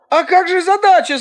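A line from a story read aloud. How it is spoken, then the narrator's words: Shouting. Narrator (Russian): закричал Ань-Янь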